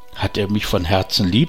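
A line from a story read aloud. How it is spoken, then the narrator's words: Plain. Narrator (German): sagte sie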